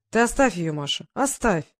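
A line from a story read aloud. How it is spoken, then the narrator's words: Conciliatory tone. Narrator (Russian): примирительным тоном говорил он жене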